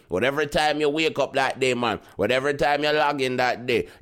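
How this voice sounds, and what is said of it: Speaker's own twangy accent. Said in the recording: “me and my twang”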